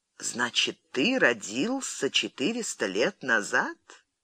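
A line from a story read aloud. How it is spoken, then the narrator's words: Quiet incredulous question. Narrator (Russian): Королева недоверчиво улыбнулась и тихо спросила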